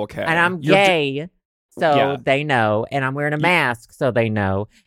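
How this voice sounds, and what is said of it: Southern American accent. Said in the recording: “Southern charm ... a Southern accent”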